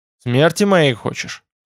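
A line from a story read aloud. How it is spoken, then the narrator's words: Grunting. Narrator (Russian): хмыкнул Хорг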